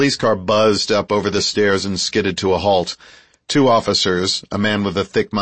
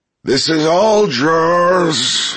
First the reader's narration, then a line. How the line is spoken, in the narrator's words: His air ran out, and the words faded into a throaty moan